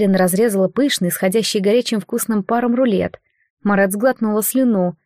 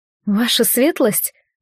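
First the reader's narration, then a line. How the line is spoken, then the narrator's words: Strained, forced out. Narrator (Russian): выдавила она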